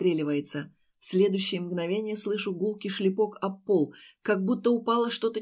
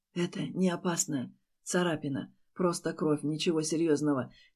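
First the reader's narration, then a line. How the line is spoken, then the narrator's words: Barely audible whisper. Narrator (Russian): чуть слышно шепчет Стас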